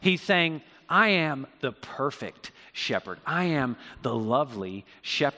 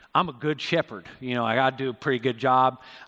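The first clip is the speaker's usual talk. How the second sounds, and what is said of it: Put-on country accent. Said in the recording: “I don't know why he has a country accent”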